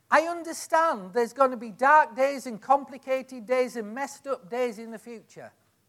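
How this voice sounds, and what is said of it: Noticeable accent. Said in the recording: “Perhaps it's my accent.”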